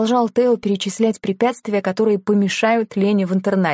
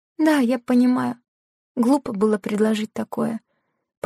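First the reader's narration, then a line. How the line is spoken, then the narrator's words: Mumbling. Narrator (Russian): пробормотала она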